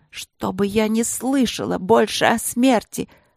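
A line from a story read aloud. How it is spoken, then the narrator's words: Harsh hiss. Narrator (Russian): прошипела она мне в лицо, незнакомо, жестко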